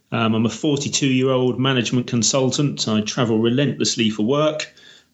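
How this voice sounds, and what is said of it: British accent. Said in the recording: “You can probably tell from my accent I'm from the UK, just based north of London in the countryside”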